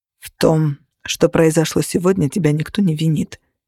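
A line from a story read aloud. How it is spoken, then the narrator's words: Calm. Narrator (Russian): спокойно сказал Кости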